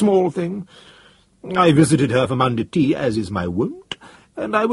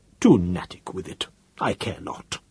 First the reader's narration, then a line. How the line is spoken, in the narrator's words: he said in a low voice